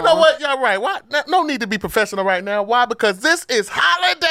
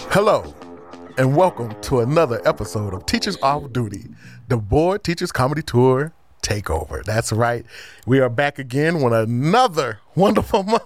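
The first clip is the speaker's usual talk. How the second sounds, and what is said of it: Polished professional announcer voice. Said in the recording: “That was my professional voice ... giving my professional voice.”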